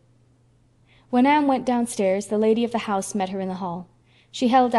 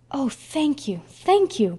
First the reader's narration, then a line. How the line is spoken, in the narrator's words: cried Anne, clasping the packet rapturously